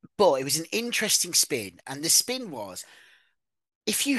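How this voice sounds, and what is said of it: Usual voice. Nothing is said of it.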